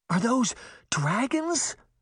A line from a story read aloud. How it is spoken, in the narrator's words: Sabrina gasped